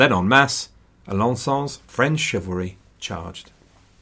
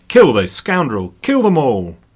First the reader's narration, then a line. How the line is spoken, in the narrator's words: from the back, Philip himself shouted